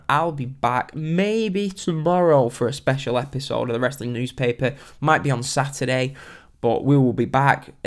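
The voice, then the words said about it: Congested, blocked-nose voice. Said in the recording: “My nose is completely blocked if you're wondering why my voice sounds a bit funny.”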